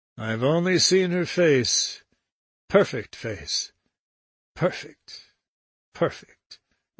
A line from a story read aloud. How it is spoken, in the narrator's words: Weldon sighed